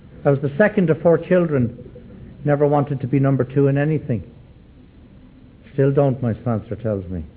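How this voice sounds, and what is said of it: Irish Dublin accent. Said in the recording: “I was born and dragged up in Dublin, Ireland ... how come you still have your accent? And I say, I saw no reason to change it.”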